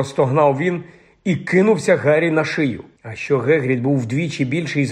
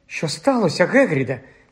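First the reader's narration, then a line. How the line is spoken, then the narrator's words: Frightened question. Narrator (Ukrainian): злякано спитала Герміона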